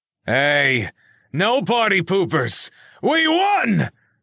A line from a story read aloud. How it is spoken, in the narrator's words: Reggie shouted triumphantly